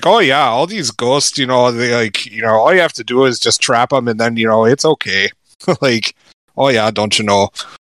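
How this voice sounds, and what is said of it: Put-on Canadian Minnesotan accent. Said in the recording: “a Canadian, you know, Minnesotan accent”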